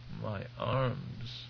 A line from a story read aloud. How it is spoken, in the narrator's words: Waff moaned